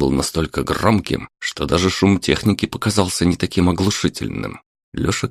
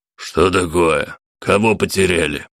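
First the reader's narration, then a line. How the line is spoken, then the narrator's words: Menacing question. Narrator (Russian): грозно спросил бритоголовый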